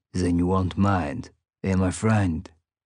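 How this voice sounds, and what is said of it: Put-on French accent. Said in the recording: “He asked with his French accent.”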